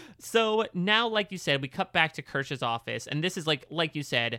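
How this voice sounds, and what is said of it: Usual voice. Nothing is said of it.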